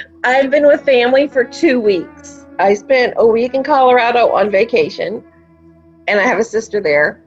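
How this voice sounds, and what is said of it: Southern twang accent. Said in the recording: “southern twang that I hear in your voice”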